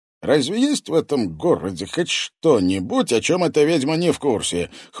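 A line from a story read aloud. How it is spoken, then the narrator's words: Snort. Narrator (Russian): хмыкнул Макарский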